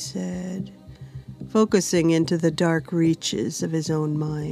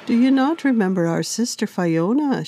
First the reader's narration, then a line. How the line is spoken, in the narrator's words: said dreamily